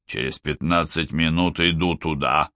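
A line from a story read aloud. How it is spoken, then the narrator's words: Grumbled with a yawn. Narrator (Russian): буркнул Гуннар, странно зевая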